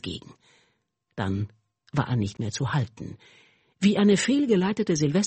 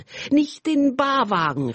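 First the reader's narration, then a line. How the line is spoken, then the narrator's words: Shout drowned out. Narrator (German): rief noch, aber seine Stimme ging unter in Geschrei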